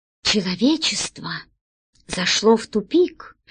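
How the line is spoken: Quiet but imposing. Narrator (Russian): негромко, но внушительно произнес президент Авдеев Корней

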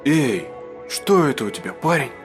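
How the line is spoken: Breathed out. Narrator (Russian): выдохнул он

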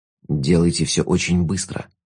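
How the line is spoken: Whisper. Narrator (Russian): шепнул Шут

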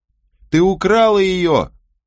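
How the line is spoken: Furious screaming. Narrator (Russian): кричала Мэгги вне себя от ярости

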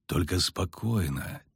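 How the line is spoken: Quiet repetition. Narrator (Russian): тихо повторил Геральт

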